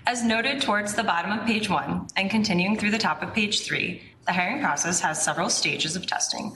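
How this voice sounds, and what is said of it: Quiet, slightly off voice. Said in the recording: “could you speak up just a little bit, please? ... I had strep throat a couple weeks ago, so my voice is a little off as well.”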